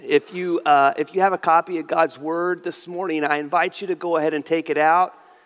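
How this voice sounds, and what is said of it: Deep, congested head-cold voice. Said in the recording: “your pastor gets a bad head cold and you get to hear my Morgan Freeman impersonation”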